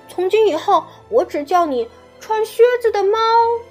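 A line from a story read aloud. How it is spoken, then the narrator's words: Regretful shout from behind. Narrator (Chinese): 小胖墩儿后悔的在后面喊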